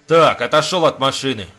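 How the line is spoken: Angry driver. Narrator (Russian): зло ответил водитель

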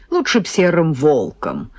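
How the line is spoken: Snorting. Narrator (Russian): фыркнул Сережка

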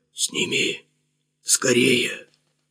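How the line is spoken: Hoarse utterance. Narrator (Russian): Максим хрипло выговорил

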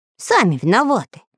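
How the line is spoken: Angry mutter. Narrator (Russian): сердито пробубнил Самоделкин

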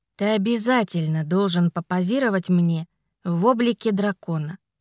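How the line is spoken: Plain. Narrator (Russian): сказала я

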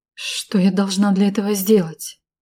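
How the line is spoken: Faltering female voice. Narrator (Russian): дрогнувшим голосом сказала я

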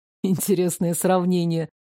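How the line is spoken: Snort. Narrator (Russian): хмыкнул

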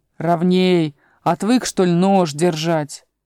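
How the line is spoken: Grumbling. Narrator (Russian): плотник проворчал

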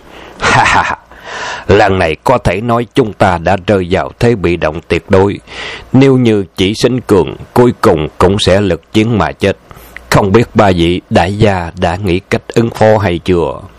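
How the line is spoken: Tipsy, smiling. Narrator (Vietnamese): gương mặt Hư Hành Chi bắt đầu ửng hồng, mỉm cười nói

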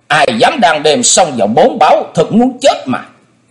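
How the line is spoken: Loud bark from above. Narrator (Vietnamese): Đột nhiên từ trên không có tiếng quát lớn

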